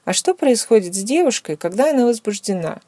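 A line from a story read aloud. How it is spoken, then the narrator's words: Calm. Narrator (Russian): Он сказал это спокойно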